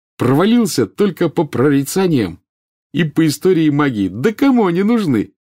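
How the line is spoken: Cheerful. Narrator (Russian): весело сказал он

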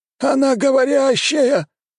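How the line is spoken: Astonished howling elders. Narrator (Russian): взвыли старейшины, что даже никогда не слышали о подобном

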